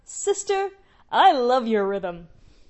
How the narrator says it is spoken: She called out

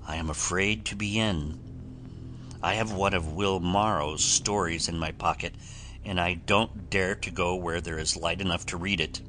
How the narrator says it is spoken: the journalist replied, with a drear autumnal cadence in his speech, like the moan of a leaf-laden wind

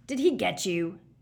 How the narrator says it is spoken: Moody growled

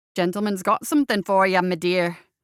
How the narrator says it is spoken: Seamus said briskly

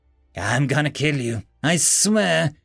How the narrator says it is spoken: he said in a tired, weak voice

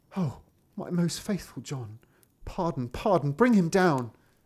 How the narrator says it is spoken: cried the king

